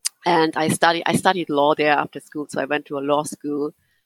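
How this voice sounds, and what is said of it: German accent. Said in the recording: “I'm originally from Germany. You might just hear it from my accent.”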